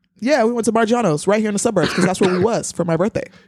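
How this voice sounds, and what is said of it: Talking very fast. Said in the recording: “You're talking very fast.”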